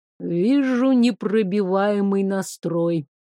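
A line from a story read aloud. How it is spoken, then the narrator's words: Displeased emphasis, sad sigh. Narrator (Russian): недовольно подчеркнул Дриан Штор и печально вздохнул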